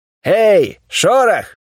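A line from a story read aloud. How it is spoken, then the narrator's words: Cheerful shout, sentry. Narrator (Russian): весело крикнул один из дозорных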